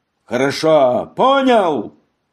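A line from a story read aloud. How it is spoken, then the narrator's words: Shout. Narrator (Russian): крикнул он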